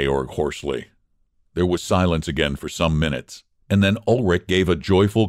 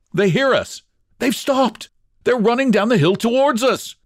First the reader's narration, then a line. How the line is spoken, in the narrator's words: cried Ulrich